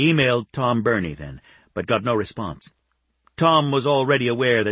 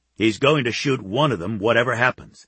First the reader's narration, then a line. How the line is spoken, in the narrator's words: Phil predicted grimly